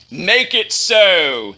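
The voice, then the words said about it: Imitates a starship captain's voice. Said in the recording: “in his best Captain Picard voice.”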